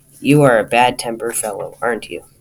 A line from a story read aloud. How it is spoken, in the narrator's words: Grunted Mr